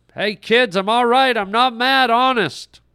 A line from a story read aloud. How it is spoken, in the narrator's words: Brett tried once more to yell to them